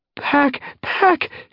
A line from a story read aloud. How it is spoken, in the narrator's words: she gasped